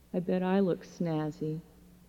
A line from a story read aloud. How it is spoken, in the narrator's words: murmured